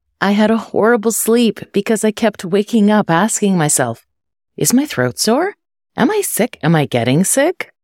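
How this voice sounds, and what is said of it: Husky, sick-sounding voice. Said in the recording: “I sound a little different today, it's because I woke up with a cold ... told me this morning that I sound like Miley Cyrus”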